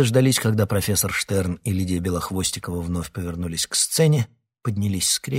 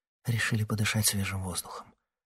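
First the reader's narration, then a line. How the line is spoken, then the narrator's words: Whispered. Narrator (Russian): шепотом сообщила Ксения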